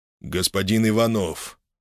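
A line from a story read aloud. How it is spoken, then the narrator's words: Sterner voice, sovereign. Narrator (Russian): Голос государя построжел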